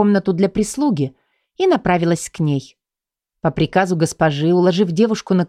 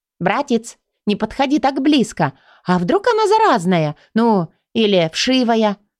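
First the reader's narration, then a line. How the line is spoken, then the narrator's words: Exclaiming. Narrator (Russian): воскликнула Лубна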